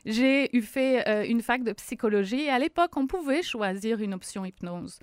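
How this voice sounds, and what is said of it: French accent. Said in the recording (French): “certains vont l'entendre à mon accent, je suis française”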